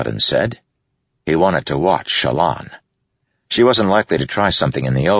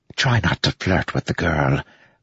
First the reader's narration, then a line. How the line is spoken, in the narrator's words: Wit whispered